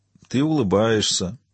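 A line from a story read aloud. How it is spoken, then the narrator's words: Dull lifeless voice. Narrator (Russian): отметил Гордий тусклым, безжизненным голосом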